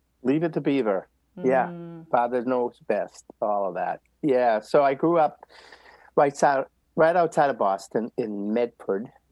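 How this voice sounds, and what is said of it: Boston accent. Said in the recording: “he's a Bostonian ... if you need an interpreter ... understand my accent ... I love your accent so much”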